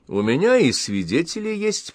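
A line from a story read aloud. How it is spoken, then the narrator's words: Snide after pause. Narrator (Russian): помолчав, ехидно добавил Максим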